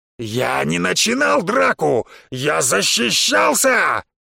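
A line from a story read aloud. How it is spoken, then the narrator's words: Roaring. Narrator (Russian): взревел Бонги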